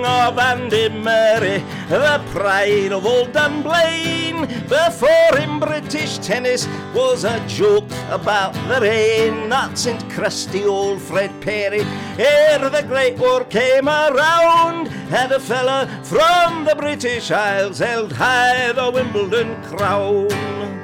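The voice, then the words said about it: Sung attempt at Scottish accent. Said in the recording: “I don't know if the accent was actually Scottish or... It was something... I'm obviously not an expert on Scottish accents”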